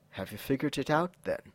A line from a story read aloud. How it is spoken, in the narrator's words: dazed and dark with lust, and Angelus whispered